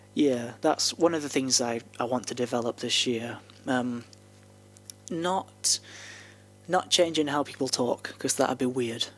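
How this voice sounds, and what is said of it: Broad northern English accent. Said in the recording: “you can hear my accent now, and I'm still pretty broadly northern ... Proper northern.”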